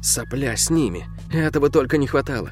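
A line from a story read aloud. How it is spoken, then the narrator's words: Whisper through tight lips. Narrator (Russian): почти не разжимая губ, прошептала Келли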